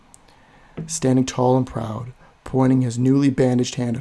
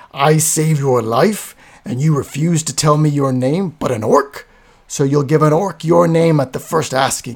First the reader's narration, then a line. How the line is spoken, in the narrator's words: Garthur roared